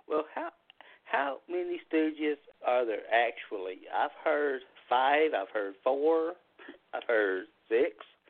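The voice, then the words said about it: Tennessee Southern accent. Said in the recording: “Tennessee. I can hear that accent.”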